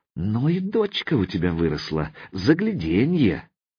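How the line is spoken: Quiet, through teeth. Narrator (Russian): процедил тихо

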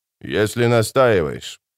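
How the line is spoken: Sorcerer grumbling. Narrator (Russian): проворчал чародей

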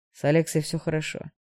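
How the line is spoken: Dry, cold tone. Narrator (Russian): сухо сообщил Игнат

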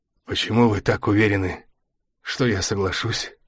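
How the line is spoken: Strained, forced out. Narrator (Russian): выдавил из себя Красовцев

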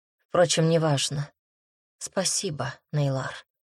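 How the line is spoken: Quiet. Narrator (Russian): произнесла тихо

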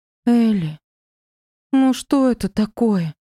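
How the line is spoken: Offended drawl, young woman. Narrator (Russian): обиженно протянула девушка

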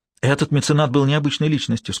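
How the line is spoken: Plain. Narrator (Russian): сказала Марта

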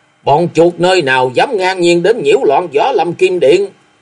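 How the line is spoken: Loud roar. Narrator (Vietnamese): Cùng với tiếng gầm, Kim Điện tổng giám Diệp Quy

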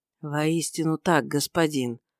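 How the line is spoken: Quiet pained voice. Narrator (Russian): ответил Иосиф тихим голосом, замечая с болью

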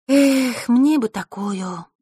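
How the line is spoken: Wistful sigh. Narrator (Russian): вздохнула Василиса

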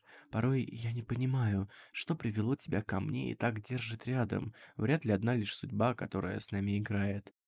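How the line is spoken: Whisper. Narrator (Russian): прошептал лишь

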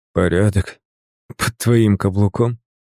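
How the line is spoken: Hoarse utterance. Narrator (Russian): хрипло выговорил я

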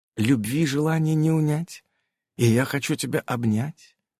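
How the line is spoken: Lustful witch's whisper. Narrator (Russian): плотоядно прошептала ведьма

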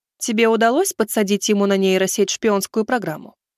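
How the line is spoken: Plain question. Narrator (Russian): спросила целительница

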